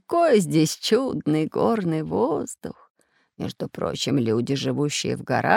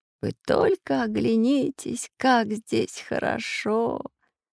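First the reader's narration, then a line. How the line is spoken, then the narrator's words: Deep sigh. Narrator (Russian): глубоко вздохнул Семён Семёныч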